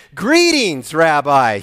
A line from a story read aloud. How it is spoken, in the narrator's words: he exclaimed